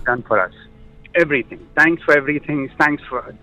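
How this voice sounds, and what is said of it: Emotional voice. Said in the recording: “I'm a little bit emotional”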